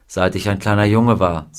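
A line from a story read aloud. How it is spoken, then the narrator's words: Plain. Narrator (German): sagte er ihr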